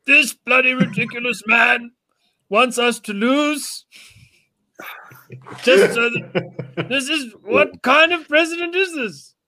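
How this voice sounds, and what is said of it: Posh British accent. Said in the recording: “speaks with an English accent ... He started swearing in high British”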